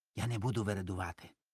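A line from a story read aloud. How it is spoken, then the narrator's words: Whispering. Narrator (Ukrainian): пошепки каже Гринь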